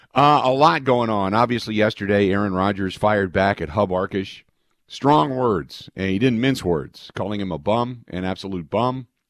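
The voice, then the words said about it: Raspy, hoarse voice from a cold. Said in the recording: “Pardon the voice. It's a little bit off, raspy. ... more of a head cold, which has moved into my chest ... I apologize for the voice, but I feel better than I sound.”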